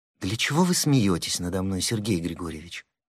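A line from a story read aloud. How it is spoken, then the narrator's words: Reproachful, trembling voice. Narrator (Russian): с упреком произнесла она внезапно дрогнувшим голосом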